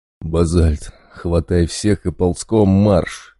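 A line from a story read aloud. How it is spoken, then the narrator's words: Breathless exhale. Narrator (Russian): выдохнул медведь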